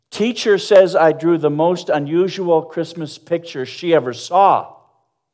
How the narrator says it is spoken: A little girl came home from Sunday school last weekend waving a paper for her mother to see, and she exclaimed

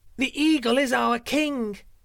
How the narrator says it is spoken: cried the birds

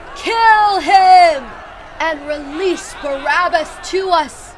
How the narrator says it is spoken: With one voice, they shouted

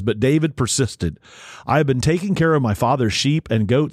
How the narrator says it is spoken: he said

